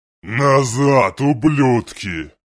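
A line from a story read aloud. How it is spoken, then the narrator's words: Gleeful roar. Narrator (Russian): взревел демон, с наслаждением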